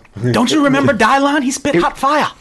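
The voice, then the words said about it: Strong put-on Jamaican accent. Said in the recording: “Is my Jamaican accent pretty strong? Was that a good one? ... It's pretty strong.”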